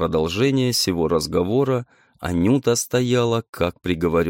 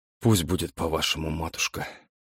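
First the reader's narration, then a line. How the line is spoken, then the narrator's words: Quiet. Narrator (Russian): сказал он тихим голосом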